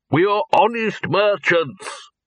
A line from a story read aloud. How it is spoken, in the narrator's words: he repeated loudly